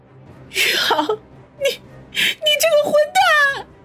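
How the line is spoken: Trembling shout. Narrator (Chinese): 方心浑身颤抖的喊道

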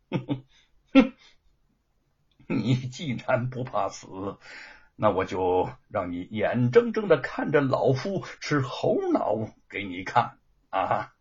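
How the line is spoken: Sneering. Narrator (Chinese): 严嵩冷笑的说

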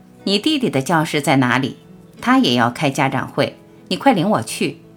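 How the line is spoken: Cold question. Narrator (Chinese): 一句冷冷的问话

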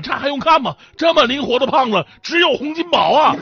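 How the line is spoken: Shouting while running. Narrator (Chinese): 小混混一边跑一边喊

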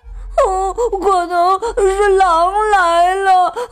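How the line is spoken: Crying. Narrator (Chinese): 皮鲁哭着说

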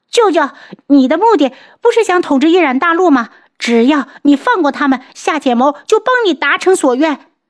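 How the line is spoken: Panicked shout. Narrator (Chinese): 夏浅谋惊慌的大叫

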